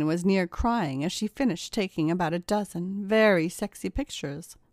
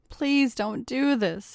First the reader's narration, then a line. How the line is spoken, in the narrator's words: he begged